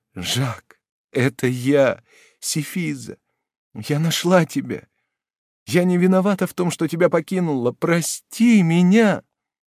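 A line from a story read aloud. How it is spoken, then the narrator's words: Sobbing. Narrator (Russian): Сефиза, рыдая, повторяла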